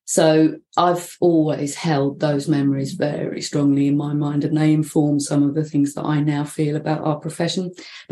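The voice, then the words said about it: London accent. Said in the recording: “I haven't lost my accent, so I come from London.”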